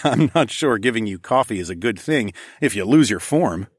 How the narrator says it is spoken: I chuckled

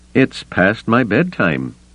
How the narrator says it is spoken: he said dryly

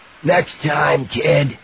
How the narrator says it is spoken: he promised in his breathless, wheezy voice

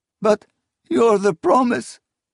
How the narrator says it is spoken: said, sobbing

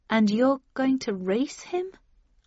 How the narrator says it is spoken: asked slightly nervously

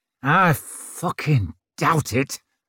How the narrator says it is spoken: snarled Judge

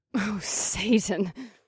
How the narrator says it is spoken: Vesta gasped

